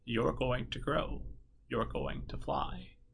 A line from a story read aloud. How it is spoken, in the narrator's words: Beatrix whispered